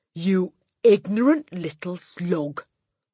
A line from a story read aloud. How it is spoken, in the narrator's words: the Trunchbull bellowed